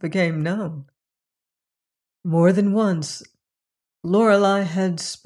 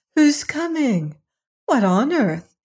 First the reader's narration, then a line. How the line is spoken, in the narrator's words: exclaimed